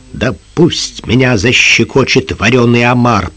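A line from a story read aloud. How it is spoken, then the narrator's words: Growling. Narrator (Russian): прорычал капитан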